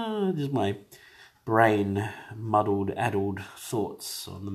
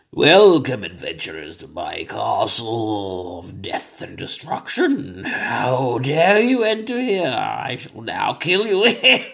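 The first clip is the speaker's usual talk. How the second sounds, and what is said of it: Evil villain voice, cold-roughened. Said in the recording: “I have a cold ... while I cough and wheeze through my day ... that's a really good voice I've got right now for evil”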